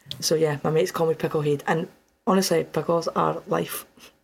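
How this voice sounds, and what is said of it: Dundee Scottish accent. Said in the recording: “The way she says pickle head. ... Heed. ... Pickle heed. ... She's from Dundee. It's like the best accent.”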